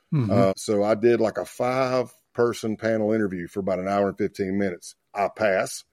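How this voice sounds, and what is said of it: Southern US country accent. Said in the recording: “my country accent”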